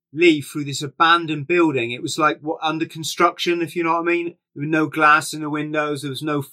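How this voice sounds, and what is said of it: Usual voice. Nothing is said of it.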